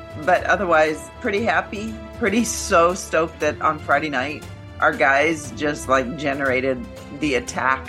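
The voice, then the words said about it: Off-sounding, affected voice. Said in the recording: “my voice is all whacked out from, a lot, the usual stuff, allergies”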